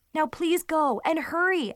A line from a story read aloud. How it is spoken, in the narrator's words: I shouted